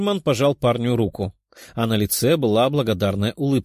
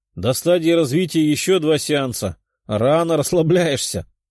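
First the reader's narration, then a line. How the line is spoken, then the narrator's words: Demon chuckling. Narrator (Russian): хохотнул демон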